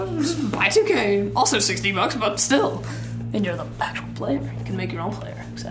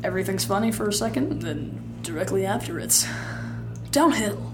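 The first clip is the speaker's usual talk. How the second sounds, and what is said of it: Put-on narrator voice. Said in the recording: “putting on my narrator voice”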